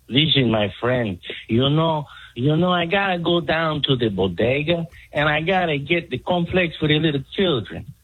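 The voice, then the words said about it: Put-on Mexican accent. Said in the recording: “your Mexican impersonation”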